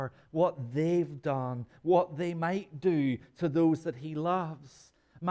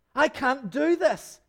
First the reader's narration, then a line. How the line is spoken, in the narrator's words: he yells